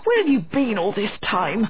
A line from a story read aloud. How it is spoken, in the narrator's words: he cried crossly